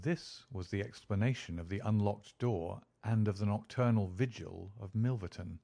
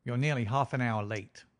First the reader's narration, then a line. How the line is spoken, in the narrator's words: said he curtly